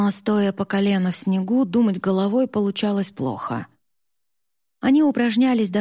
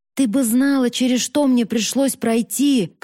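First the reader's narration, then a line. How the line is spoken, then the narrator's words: Shouting. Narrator (Russian): кричала она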